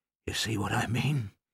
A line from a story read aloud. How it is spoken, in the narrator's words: he whispered